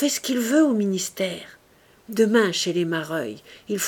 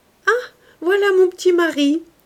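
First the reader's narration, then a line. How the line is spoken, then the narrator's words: Exclaimed. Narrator (French): s'écria Louise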